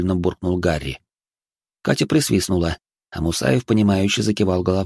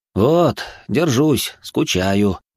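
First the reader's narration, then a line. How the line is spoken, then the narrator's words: Sighing. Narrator (Russian): вздохнул Гарри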